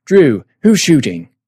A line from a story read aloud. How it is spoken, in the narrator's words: Schmeck yelled